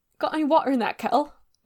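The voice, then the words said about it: Weak attempt at Irish accent. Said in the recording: “That's not Irish. ... Yeah, that's a little better. ... You're doing a British thing.”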